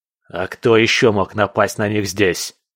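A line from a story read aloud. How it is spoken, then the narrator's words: Furious bark. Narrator (Russian): рявкнул Свен с искаженным от злости лицом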